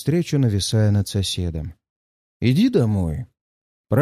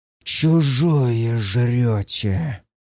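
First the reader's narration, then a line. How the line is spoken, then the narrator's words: Hiss. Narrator (Russian): прошипел Влас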